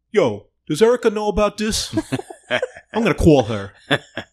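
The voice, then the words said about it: Imitated New York accent. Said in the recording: “Joey's accent ... that accent is actually disappearing. You know, I lived in New York”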